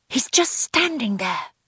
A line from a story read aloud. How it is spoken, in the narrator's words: whispered Maggie